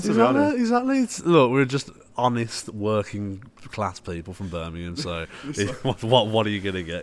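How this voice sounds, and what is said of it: Brummie Birmingham accent. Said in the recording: “it's just a brummy dialect ... I love the brummy accent”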